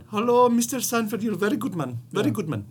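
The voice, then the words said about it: Put-on accent, mediocre impression. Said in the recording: “if you're good at the accent ... a white man doing a brown or black ... I'm not saying that's a great impression”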